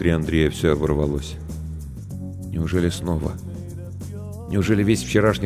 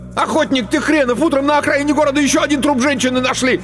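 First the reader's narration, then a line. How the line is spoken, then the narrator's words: Yelling. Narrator (Russian): заорал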